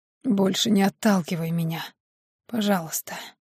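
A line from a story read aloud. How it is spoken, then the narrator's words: Hoarse whisper. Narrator (Russian): хрипло прошептал он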